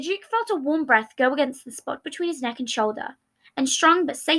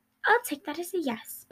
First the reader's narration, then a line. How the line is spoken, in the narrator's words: Patton murmured